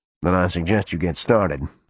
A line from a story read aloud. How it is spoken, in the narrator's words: the man said dryly